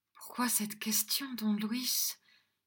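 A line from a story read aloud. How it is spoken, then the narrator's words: Unsteady voice. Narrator (French): demanda-t-elle d'une voix mal assurée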